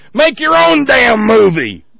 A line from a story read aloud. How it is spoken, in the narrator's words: Mel screamed